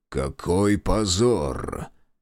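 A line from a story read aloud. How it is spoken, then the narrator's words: Muttered. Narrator (Russian): пробормотал граф Горчаков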